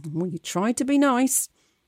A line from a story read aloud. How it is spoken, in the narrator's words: muttering